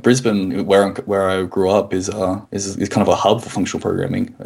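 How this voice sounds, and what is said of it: Australian accent. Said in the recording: “your accent makes the gives you a lot of cred as a functional programmer ... there's a lot of Australian functional programmers”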